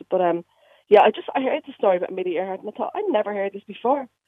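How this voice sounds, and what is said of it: Dublin Irish accent. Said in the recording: “that doesn't sound like a Derry accent. ... No, it's not a Derry accent. I moved to Derry from Dublin ... I never lost my accent.”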